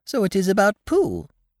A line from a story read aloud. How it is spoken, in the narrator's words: he squeaked